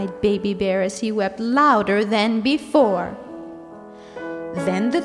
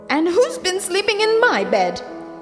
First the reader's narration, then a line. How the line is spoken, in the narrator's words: screamed Mother Bear